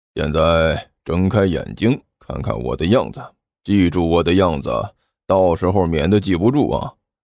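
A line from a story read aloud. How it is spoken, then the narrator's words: Low voice. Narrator (Chinese): 尼才低声说道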